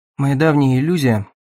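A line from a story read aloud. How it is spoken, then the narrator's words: Indifferent tone. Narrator (Russian): безразличным тоном произнесла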